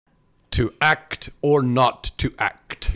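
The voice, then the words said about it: Shakespearean-style theatrical accent. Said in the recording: “I like your accent better. Much more Shakespearean.”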